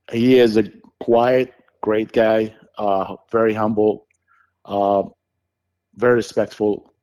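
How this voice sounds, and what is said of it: Foreign accent likened to famous actor's. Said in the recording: “they were mocking me for my sound or my accent. They were saying it sounded like Arnold.”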